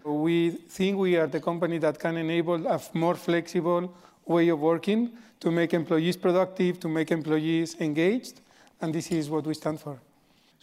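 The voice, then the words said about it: Non-American, Spanish accent. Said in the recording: “I can tell from your accent you're not from uh, Baltimore or Washington D.C. ... I'm not from the US ... I am uh, originally from Spain”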